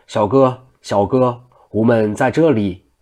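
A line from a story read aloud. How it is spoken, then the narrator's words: Loud. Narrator (Chinese): 王承恩又高声道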